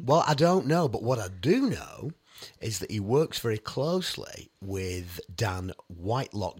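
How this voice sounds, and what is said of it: Congested voice from a cold. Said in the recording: “I've got a bit of a cold today. I can hear it in my voice.”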